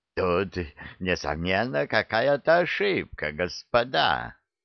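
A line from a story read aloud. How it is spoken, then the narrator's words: Casual, unctuous tone. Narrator (Russian): непринужденно обратился он к нам самым елейным тоном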